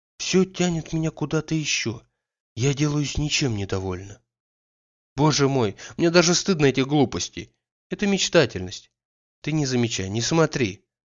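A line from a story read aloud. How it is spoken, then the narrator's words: Pleading voice. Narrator (Russian): прибавила она умоляющим голосом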